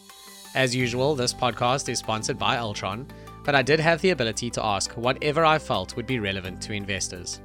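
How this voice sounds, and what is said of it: Congested voice from a cold. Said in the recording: “apologize for my voice. I have a cold”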